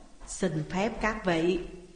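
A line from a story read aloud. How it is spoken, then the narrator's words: Smiling. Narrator (Vietnamese): Thi Công mỉm cười nói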